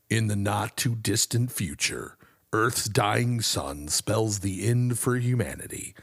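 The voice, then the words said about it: Dramatic movie-trailer voice, Don LaFontaine. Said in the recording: “Let me get my In a World voice going. ... Don LaFontaine.”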